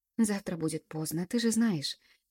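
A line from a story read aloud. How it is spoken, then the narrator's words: Sighed. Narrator (Russian): вздохнула я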